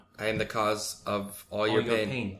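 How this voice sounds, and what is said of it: Put-on accent. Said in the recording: “Nice little accent there.”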